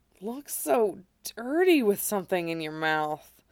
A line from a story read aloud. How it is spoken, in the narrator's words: he murmured, voice dripping with satisfaction